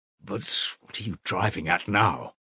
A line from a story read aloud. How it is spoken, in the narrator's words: Raskolnikov muttered at last, asking the question without thinking